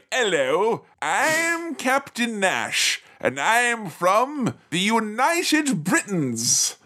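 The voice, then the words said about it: Unconvincing put-on British accent. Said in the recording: “does an outstandingly unconvincing British style accent”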